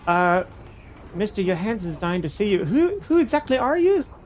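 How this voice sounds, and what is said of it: Badly done put-on accent. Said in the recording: “my accent is terrible”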